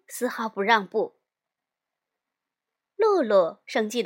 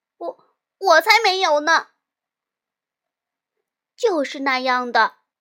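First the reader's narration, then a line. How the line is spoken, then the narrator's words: Loud, angry protest. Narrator (Chinese): 露露呢，也气得满脸通红，大声辩解道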